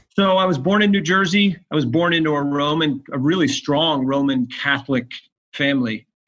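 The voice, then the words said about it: New Jersey accent, fast talker. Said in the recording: “I'm from New Jersey. And if anybody knows New Jersey, it's usually people that talk fast, have a funny accent”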